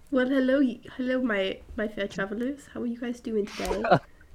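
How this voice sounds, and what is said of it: Put-on British accent. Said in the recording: “my character's gonna have a British accent from now on”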